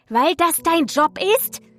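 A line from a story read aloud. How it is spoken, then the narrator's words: Woman shrieking. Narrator (German): kreischte die Blondine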